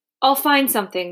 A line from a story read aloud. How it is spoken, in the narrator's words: Mama said quickly